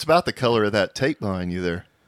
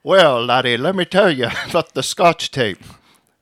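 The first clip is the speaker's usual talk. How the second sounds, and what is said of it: Put-on Scottish accent. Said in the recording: “That was my Scottish impression.”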